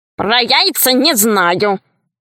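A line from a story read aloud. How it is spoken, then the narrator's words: Witch grumbling. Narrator (Russian): проворчала ведьма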